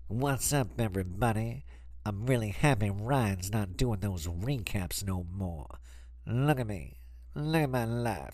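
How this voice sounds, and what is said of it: Imitates another person's voice. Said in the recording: “I'm gonna just do a couple voices”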